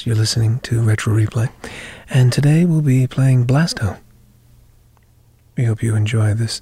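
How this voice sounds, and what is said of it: NPR-style radio podcast voice. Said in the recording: “You change your voice up a little bit? ... It's kind of the NPR type of podcast voice.”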